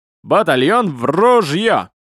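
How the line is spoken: Barking shout. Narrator (Russian): гаркнет

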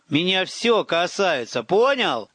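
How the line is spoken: Blunt angry yell in reply. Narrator (Russian): Отбрасывая всякую дипломатию, заорал я в ответ

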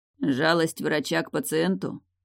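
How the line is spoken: Mocking. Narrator (Russian): насмешливо уточнил Ирвин

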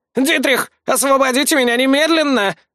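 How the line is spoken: Yelling prisoner. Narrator (Russian): заорал один из пленников

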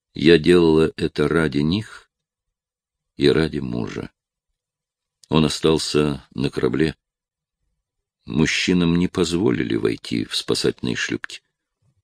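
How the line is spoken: Soft. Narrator (Russian): добавила мягко

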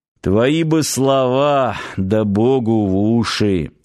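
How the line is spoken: Sighing. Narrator (Russian): вздохнул Ярчук

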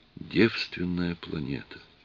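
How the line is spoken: Whisper. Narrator (Russian): она прошептала

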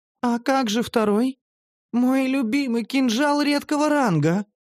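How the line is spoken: Pleading moan. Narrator (Russian): Простонала она просительно

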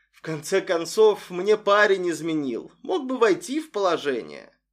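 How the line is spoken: Resigned sigh. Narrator (Russian): Арсений обреченно вздохнул

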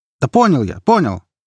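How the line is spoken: Nervous shout. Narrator (Russian): нервно крикнул тот

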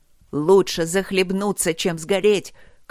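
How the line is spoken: Shout, master. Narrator (Russian): крикнул мастер

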